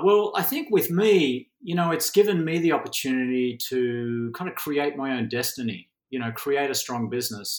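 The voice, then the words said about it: Australian accent. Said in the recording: “this ridiculous accent, you know, I'm originally from Australia”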